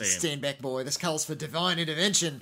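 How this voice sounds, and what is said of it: Put-on New Zealand accent. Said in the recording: “Good accent. ... Do the Kiwi accent. ... I'm sure Kiwis winced ... it was better than mine”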